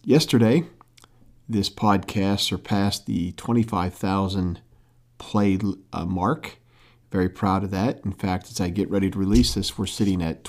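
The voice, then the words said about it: Quiet, low-voiced speech. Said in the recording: “In case you're wondering why I speak in a low voice,”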